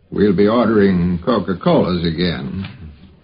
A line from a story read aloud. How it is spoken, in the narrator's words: Carl said in his slow drawl